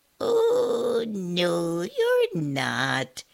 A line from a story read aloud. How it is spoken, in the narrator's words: piped a small, sweet voice